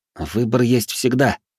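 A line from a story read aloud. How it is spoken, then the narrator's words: Grumbled. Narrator (Russian): буркнул я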